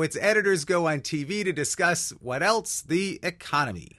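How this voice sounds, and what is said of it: Usual voice. Nothing is said of it.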